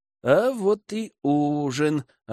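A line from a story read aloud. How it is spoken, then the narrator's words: Happy mutter. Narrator (Russian): радостно пробормотал Герман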